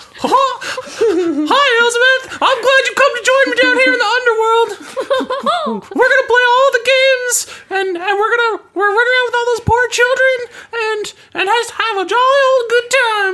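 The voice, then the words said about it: Mickey Mouse cartoon character voice. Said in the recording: “Do the Mickey Mouse voice.”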